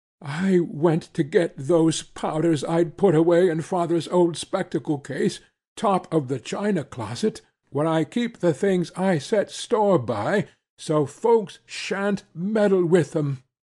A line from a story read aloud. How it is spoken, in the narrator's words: she continued in a trembling voice